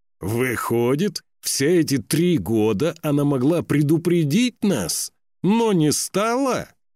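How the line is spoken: Loud warrior shout. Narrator (Russian): громко крикнул воин Ненни

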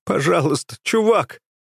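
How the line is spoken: Sobbing, choking back tears. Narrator (Russian): всхлипывает он, к его горлу подкатывают рыдания

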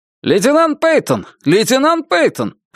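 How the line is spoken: Shouted. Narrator (Russian): прокричал офицер из диспетчерской

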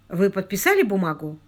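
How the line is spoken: Quick question. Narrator (Russian): быстро спросил Абершоу

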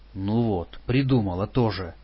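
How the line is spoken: Grumbling. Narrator (Russian): проворчал я

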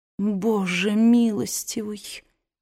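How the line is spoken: Dazed mutter. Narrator (Russian): пробормотала она, еще не до конца осознав значение услышанного

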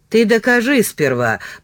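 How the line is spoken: Muttered grumbling. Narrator (Russian): пробурчал Данилыч

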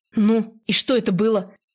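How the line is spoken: Stern question. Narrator (Russian): Строго спрашивает

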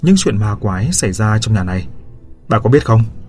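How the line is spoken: Cold question. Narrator (Vietnamese): Tôi lạnh lùng hỏi

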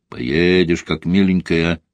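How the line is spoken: Declared menacingly. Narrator (Russian): заявил грозно Каргополов

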